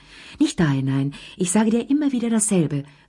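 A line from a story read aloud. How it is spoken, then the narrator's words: Calling out. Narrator (German): rief Lea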